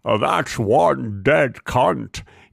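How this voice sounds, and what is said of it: Sam Waterston impression. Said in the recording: “my Sam Waterston impression ... That sounded like Jimmy Stewart ... a pretty good Sam Waterston”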